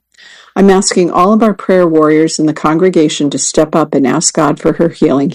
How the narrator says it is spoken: he said

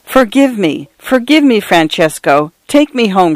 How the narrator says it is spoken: she cried

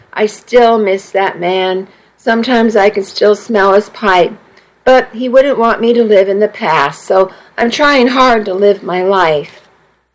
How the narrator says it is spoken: she sighed

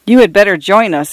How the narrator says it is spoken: agreed, quickly laughing

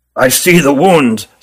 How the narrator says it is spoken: said Ruggum gravely

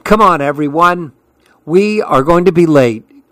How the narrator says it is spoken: cried Sophie

